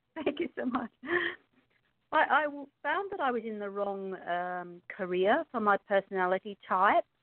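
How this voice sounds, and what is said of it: Australian accent. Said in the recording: “I'm obviously from Australia because I have a funny accent... It's a beautiful accent.”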